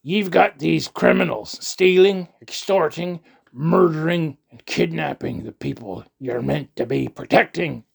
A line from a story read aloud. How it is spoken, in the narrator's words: I bellowed